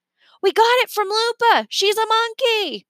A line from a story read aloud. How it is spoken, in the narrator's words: Remy yelled